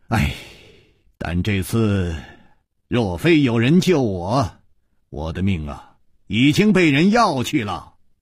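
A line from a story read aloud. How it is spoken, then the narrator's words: Sighing through a smile. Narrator (Chinese): 楚留香虽然在微笑，还是忍不住叹了一口气说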